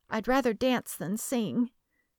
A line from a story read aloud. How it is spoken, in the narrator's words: shyly, whispering